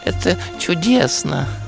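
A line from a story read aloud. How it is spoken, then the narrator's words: Rapturous sigh. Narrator (Russian): Восторженно вздохнул ежик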